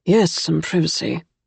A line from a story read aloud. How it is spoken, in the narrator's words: muttered Will in English